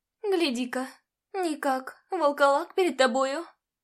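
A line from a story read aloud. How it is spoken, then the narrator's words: Exclaimed. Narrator (Russian): Воскликнула она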